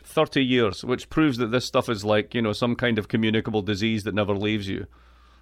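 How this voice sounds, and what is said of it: Scottish accent. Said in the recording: “I am from Scotland. I am from the east coast of Scotland. I have an accent which is just absolutely perfect ... This accent is impervious to all attempts by Americans”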